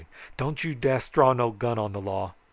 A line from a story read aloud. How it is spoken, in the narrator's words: he hollered